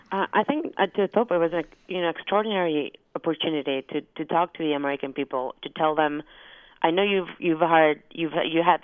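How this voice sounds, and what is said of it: Argentinian-accented English. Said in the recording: “my English might be heavily accented, since I'm also Argentinian”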